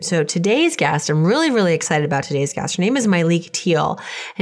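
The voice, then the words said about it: Voice affected by a cough. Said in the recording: “As you can tell from my voice, I'm still getting over a bit of a cough.”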